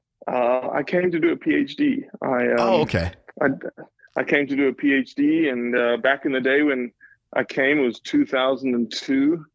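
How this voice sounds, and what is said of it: South African accent with Southern drawl. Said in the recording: “You can't tell from my accent. ... you run across a lot of South Africans that have Southern draws at the same time.”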